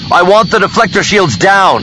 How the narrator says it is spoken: Luke shouted back

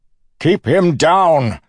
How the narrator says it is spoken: Suit shouted

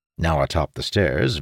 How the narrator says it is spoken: Vaem grumbled

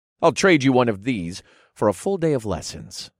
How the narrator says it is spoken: I offered in a firm voice

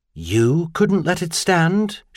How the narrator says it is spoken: Charlian said in a careful tone

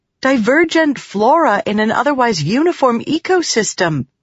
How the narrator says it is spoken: Shallan exclaimed

